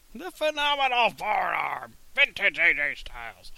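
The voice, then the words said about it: Imitates another person's voice. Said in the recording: “my Michael Cole impression”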